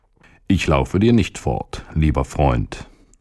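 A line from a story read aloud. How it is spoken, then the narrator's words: Plain. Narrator (German): antwortete der Magen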